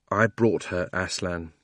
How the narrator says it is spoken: he answered in a low voice

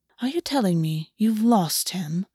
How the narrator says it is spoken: August said, his voice far quieter than usual

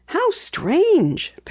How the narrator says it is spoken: Penny murmured

